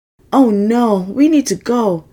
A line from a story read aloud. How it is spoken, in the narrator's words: Dan cried, trying his best to keep up